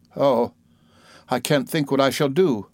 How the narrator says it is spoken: exclaimed

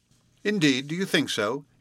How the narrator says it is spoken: interrupted Hunsdon scoffingly

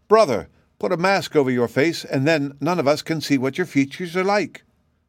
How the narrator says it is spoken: exclaimed Shaggy joyfully, and then he called out

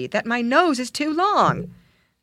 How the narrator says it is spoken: exclaimed he

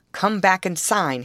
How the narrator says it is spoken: reiterated, in his loudest and angriest tones

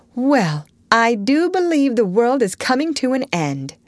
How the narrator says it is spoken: Meg exclaimed, with uplifted hands

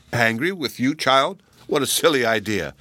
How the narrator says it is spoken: exclaimed, laughing

